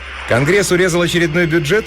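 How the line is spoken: Cheerful question. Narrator (Russian): весело спросила Тесса

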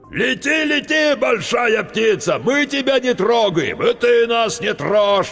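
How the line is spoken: Yelling. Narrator (Russian): вопил старший

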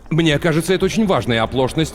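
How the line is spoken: Sharp. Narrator (Russian): резко заявил Дэн Тайлер

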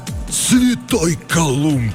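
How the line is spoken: Astonished gasp. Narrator (Russian): выдохнул стилет, разинув от удивления рот

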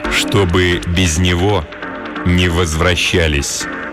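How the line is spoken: Very quiet, clear, menacing command. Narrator (Russian): велел тик-такщик очень тихим, очень внятным, чрезвычайно угрожающим голосом

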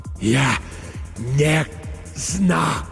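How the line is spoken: Breathless. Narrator (Russian): выдохнул Петр

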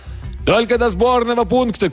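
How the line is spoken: Shouted reply. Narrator (Russian): крикнул в ответ профессор

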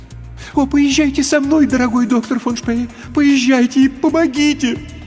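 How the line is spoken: Pleading. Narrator (Russian): взмолилась женщина

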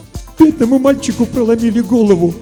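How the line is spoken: Sob. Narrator (Russian): всхлипнула Варвара Алексеевна

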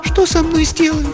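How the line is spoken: Thin-voiced, trying to be resolute. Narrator (Russian): спросила она, тонким голосом, несмотря на свою решимость

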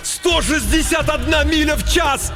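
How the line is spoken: Wild yelling. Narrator (Russian): Майк завопил

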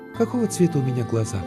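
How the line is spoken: Sigh, then sudden question. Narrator (Russian): Девушка вздохнула и вдруг спросила

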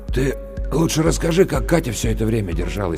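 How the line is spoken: Hoarse interruption. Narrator (Russian): прервал Максим Лешин монолог хриплым голосом

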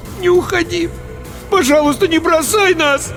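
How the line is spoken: Pleading. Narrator (Russian): взмолился я

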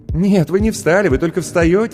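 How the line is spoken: Girl laughing. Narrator (Russian): засмеялась девушка

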